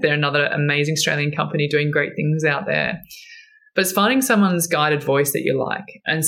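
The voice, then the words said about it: Australian accent. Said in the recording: “you got an Australian accent”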